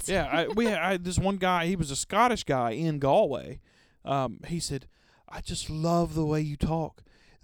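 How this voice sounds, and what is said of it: Southern US drawl. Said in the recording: “southern drawl in our voices. We are from the south of the U.S. ... That long southern drawl”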